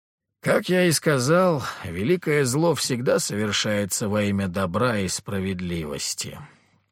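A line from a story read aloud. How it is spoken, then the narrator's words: Reproachful sigh. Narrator (Russian): укоризненно вздохнул патриарх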